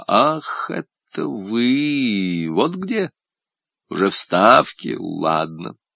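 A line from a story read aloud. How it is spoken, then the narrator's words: Surprised drawl. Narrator (Russian): удивленно протянул слова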